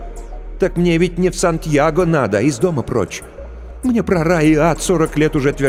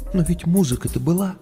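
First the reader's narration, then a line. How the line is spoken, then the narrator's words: Quiet question. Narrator (Russian): спросила она тихо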